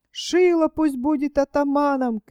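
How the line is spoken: Crowd shouting. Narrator (Russian): кричали одни

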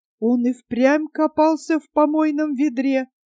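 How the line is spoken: Forced out. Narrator (Russian): выдавила она

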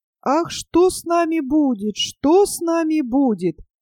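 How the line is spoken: Moaning. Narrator (Russian): стонала Аистиха

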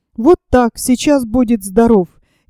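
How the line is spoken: Low angry voice. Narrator (Russian): низким сердитым голосом сказала Варя

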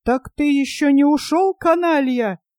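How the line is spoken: Shout. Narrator (Russian): крикнул Пашинцев

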